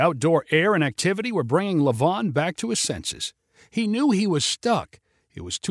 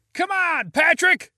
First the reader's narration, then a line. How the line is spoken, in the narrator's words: shouted people in the crowd